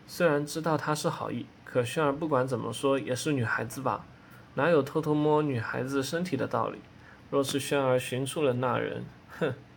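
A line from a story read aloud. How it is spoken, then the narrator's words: Faint self-directed murmur. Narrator (Chinese): 口中似乎是自难般的淡淡道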